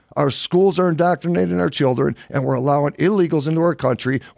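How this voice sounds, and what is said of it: Strained, hoarse voice. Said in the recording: “I get so fired up and I start losing my voice right away.”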